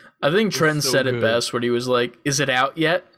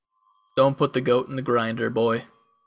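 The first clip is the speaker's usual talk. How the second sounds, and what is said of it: Jim Carrey's Scottish accent impression. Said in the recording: “That's what Jim Carrey was saying in his Scottish accent.”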